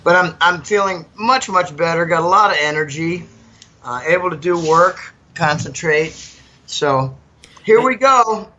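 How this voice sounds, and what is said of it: Rough, sick-sounding voice. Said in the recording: “Pardon my voice. I'm just about done getting over this nasty flu bronchitis”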